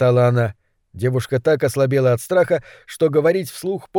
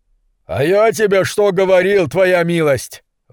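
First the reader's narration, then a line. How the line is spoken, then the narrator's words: Delighted yell. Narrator (Russian): в восторге завопил предатель Сэм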